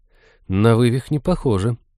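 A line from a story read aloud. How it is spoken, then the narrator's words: Uncertain. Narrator (Russian): неуверенно заключила она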